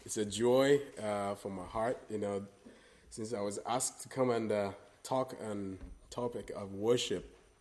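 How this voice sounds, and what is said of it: Non-native English accent. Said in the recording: “my accent, the language will not be a barrier”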